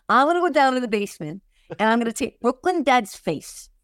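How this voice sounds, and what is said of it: Put-on accent. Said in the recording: “I'm giving him this accent.”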